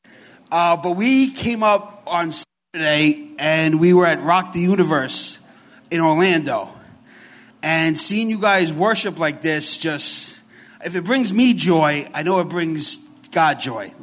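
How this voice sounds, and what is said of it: Heavy New York Bronx accent. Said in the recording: “if I talk kind of funny, I got a real New York accent. I'm from the Bronx, so it's very heavy.”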